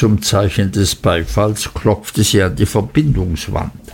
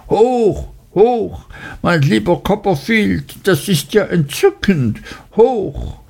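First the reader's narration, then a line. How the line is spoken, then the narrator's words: Shrill cry. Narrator (German): rief mit schriller Stimme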